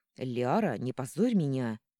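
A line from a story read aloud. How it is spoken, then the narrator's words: Angry hiss, distant echo. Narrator (Russian): гневное шипение супруга отдаленным эхом прозвучало в ушах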